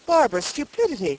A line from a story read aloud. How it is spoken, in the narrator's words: cried the panic-stricken physician